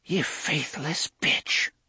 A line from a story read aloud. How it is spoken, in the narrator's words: Cordelia whispered